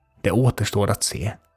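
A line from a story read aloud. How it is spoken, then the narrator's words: Cold. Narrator (Swedish): säger den gripne kallt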